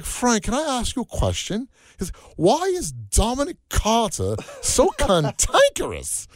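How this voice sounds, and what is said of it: Put-on English British accent. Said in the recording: “He had had that English British accent”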